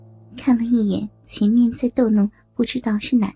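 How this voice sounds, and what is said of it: Usual voice. Nothing is said of it.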